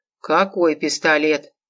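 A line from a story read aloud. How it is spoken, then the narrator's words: Even-voiced question. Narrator (Russian): спросил он ровным голосом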